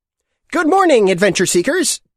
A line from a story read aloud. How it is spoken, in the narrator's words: he said in a shrill, childlike voice